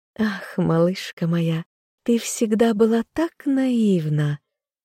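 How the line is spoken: Giggling. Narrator (Russian): Хихикнула Ванесса

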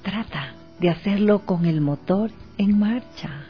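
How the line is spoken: Thoughtful near-whisper. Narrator (Spanish): El cirujano, pensativo, le dijo, casi susurrando al oído

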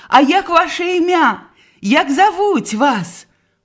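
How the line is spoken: Shouting. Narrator (Belarusian): крычала

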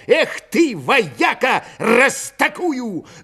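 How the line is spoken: Shouted. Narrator (Russian): С плеча рубанул его, крикнув

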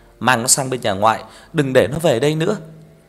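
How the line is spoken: Loud shout. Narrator (Vietnamese): Bà quát lớn

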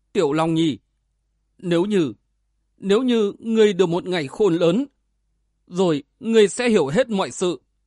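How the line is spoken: Sobbing young woman, choked. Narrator (Vietnamese): Thiếu phụ xinh đẹp khóc nức lên, nghẹn ngào nói

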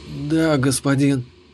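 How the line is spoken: Whisper, almost with relish. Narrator (Russian): почти с наслаждением прошептала эльфийка

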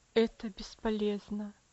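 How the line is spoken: Sad sigh. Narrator (Russian): вздохнул доктор, печально качая головой

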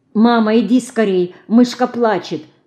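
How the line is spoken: Anxious, agitated. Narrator (Russian): взволнованно сообщает Алина

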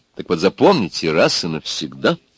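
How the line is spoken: Assertive, angry, lecturing tone. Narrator (Russian): напористо и сердито и назидательно заговорила Клара

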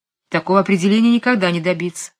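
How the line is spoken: Sighing. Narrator (Russian): вздохнул Дуглас

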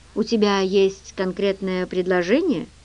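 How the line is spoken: Dry. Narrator (Russian): Его голос прозвучал достаточно сухо

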